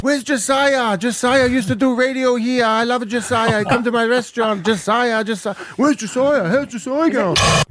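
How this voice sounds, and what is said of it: Impersonation of a local voice. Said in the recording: “spot on impersonations of the locals”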